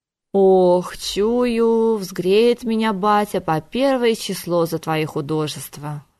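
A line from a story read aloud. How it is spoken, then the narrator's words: Sighed. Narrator (Russian): вздохнул Кондратий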